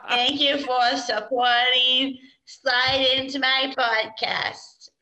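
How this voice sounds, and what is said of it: Put-on Boston accent. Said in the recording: “In a Boston accent.”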